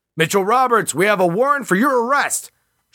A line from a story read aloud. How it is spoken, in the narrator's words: shouted the man